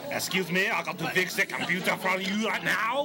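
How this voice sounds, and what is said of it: Mock French accent. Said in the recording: “your French accent”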